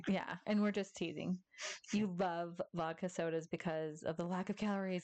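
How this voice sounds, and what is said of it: Strong Massachusetts accent. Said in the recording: “accent's coming out wicked bad. Obviously, we're from Massachusetts.”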